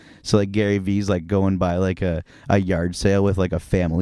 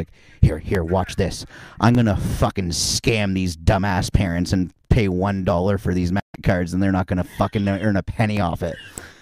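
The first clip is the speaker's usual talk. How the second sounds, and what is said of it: Imitates another person's voice. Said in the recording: “my Gary Vee impression”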